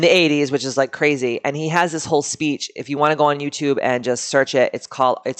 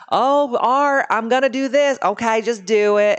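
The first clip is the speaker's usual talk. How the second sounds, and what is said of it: Put-on Southern accent. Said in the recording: “he's from the South, obviously, so I do a Southern accent.”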